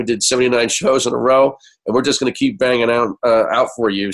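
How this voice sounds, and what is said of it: Sick-sounding voice. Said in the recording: “I apologize for my voice this week, folks. I'm really sick”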